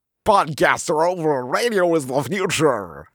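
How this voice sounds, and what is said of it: Strained, croaky mock radio voice. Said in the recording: “working out my radio voice ... it sounds like you kind of like swallowed a pog slammer and it got stuck ... like a real pog throat ... Now it sounds like you're melting in acid”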